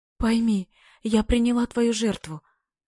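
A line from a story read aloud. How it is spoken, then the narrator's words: Shaken, trembling, faltering babble. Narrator (Russian): лепетал вздрагивая и обрываясь, потрясенный голос Радиной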